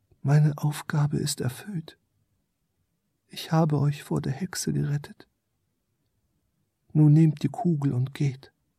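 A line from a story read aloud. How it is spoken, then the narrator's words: Quiet small creature. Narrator (German): Das kleine Wesen sprach leise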